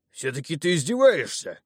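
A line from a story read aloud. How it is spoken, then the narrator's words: Angry deep bass. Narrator (Russian): рассерженно пробасил воин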